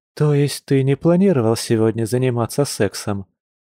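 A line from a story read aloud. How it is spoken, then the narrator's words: Soft chuckle. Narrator (Russian): мягко хмыкнула Маша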